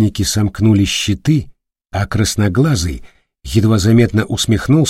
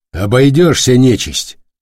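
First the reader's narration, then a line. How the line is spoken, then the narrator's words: Sharp, curt. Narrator (Russian): резко бросил твердята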